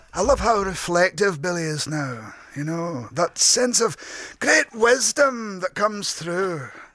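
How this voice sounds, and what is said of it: Raspy Glaswegian Billy Connolly impression. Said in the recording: “Johnny Vegas with that style there, with that comedic bewilderment ... take that rasp and move the accent away from St. Helens and maybe bring that Glaswegian lilt ... Just retune that in that way”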